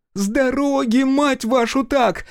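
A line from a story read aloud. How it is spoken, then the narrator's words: Screaming. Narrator (Russian): вопит Наджия Аскарзада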